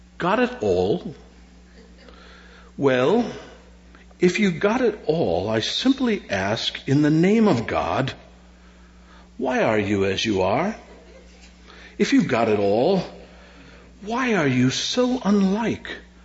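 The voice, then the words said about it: Put-on British accent. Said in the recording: “maybe I can do this in a little British accent. ... So here goes my British attempt here.”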